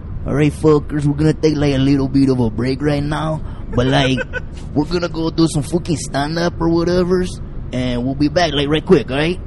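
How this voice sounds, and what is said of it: Exaggerated offensive vato accent. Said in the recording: “The offensive vato. ... your with your little accent”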